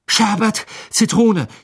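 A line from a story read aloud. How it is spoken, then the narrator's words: Gasped. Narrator (German): japste er ihm entgegen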